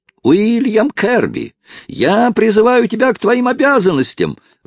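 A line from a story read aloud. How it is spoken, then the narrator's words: Distant yelling. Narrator (Russian): вопил издали Хайрам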